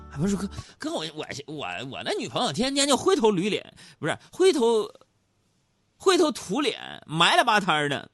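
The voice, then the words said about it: Northeastern Chinese accent. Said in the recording (Chinese): “通过这个口音呢，我判断这位朋友应该是东北哪儿的。”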